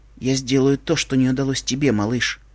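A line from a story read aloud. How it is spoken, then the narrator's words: Filly speaking quietly. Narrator (Russian): тихо сказала кобылка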